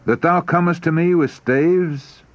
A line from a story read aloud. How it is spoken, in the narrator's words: he exclaimed